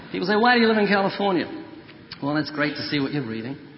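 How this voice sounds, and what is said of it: Slight New Zealand accent. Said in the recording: “the accent is a New Zealand accent. I have a slight accent.”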